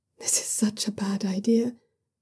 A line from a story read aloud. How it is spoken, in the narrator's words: Jiang Yang mutters